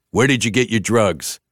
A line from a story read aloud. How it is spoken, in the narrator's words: a voice barked